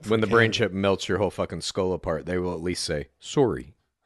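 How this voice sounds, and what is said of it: Put-on Canadian accent. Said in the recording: “Pretty good impersonation... that was a good impersonation of a Canadian.”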